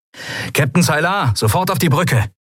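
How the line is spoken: Calling into speaking tube. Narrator (German): rief Sephiron in eines der Sprechrohre

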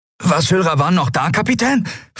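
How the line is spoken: Excited question. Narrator (German): fragte Miko aufgeregt

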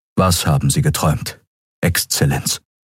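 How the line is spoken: Plain question. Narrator (German): fragte er

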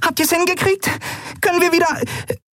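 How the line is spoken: Squeaky voice. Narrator (German): piepste sie

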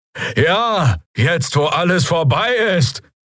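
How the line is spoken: Calling from the crowd. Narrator (German): rief jemand aus den Reihen der Bürger, der Stimme nach ein Draxyl

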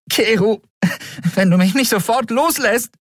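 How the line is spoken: Called out. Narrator (German): rief Endriel

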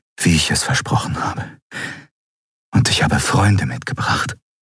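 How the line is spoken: Whispered. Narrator (German): flüsterte

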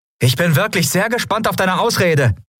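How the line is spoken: Called out. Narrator (German): rief Andriel

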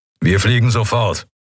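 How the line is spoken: Growling. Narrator (German): knurrte er

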